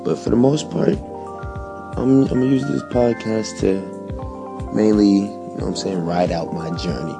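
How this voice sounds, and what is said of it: Whispering, speaking softly. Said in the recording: “whispering, speaking softly”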